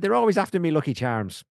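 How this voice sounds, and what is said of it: Poor put-on Irish accent. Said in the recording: “Terrible Irish accent.”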